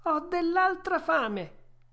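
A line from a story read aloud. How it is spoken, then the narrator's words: Yawning, whimpering. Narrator (Italian): Pinocchio fece un lunghissimo sbadiglio e disse piagnucolando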